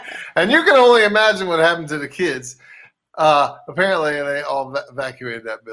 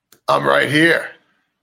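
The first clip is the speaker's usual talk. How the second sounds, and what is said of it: Deep voice. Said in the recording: “in a deep voice”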